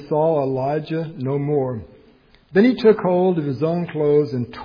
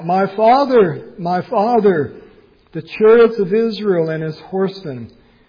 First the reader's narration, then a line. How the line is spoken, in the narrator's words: cried out